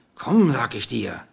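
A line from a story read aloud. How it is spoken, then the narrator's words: Menacing hiss. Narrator (German): zischte der Dunkelhaarige drohend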